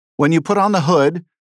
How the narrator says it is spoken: one of my colleagues and a former Marine, Ruben Gallego of Arizona, shouted

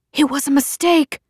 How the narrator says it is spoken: she called back desperately

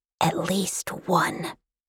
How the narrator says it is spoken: The princess in blankets narrowed her eyes and whispered into the breeze

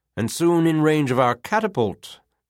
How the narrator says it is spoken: added loudly

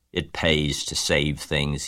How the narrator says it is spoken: he said in his surly voice

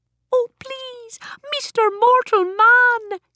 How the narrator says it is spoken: pleaded

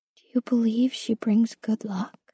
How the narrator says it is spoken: I said softly

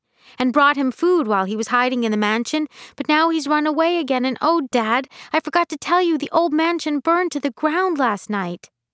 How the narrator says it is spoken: Trixie went on excitedly

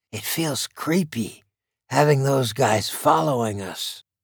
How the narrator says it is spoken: Marshall whispered to KC

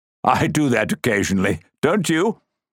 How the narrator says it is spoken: His laugh sounded false and put on, almost like a cough

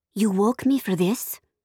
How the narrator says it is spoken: I whispered to Sophia

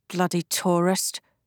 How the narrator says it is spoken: someone mutter

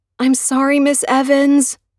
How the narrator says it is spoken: Nikki wails

